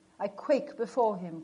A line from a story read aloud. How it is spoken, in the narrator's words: cried relentless fate